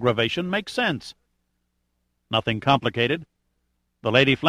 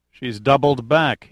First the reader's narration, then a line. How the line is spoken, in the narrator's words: he said flatly